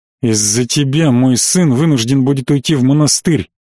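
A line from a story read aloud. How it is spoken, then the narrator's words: Angry, through teeth, emperor. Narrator (Russian): зло процедил император, позволив себе несвойственную ему фамильярность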